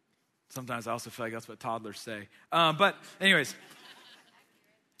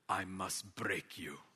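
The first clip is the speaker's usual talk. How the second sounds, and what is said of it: Put-on Russian accent. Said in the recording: “It's my best Russian accent.”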